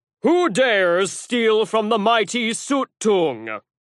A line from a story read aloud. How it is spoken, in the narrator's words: he bellowed